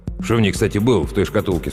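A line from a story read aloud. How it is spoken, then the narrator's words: Plain. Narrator (Russian): спросил прапорщик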